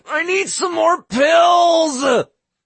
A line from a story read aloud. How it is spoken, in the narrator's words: Cookie howled